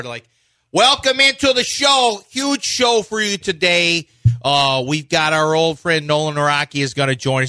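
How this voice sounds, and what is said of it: Put-on Chicago radio accent. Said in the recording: “I started accidentally doing Chicago ... If we opened the show as Chicago radio”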